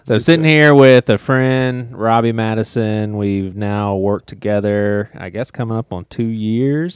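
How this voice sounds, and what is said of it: Put-on podcast host voice. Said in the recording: “I get in like a mode. So am I talking differently ... Am I talking differently all of a sudden? ... Oh, yeah. ... At least I hear your podcast voice.”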